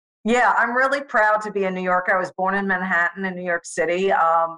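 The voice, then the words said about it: Strong New York accent. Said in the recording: “you kept your New York accent. We have a very, very strong accent, the way we enunciate certain things”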